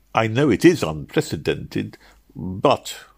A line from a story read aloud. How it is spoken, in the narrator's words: hastily anticipated